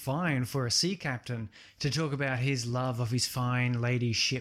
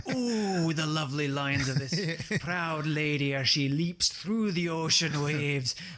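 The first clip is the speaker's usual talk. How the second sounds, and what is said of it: Strange put-on sea captain accent. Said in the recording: “I take on this strange accent... That's that's how sea captains talk.”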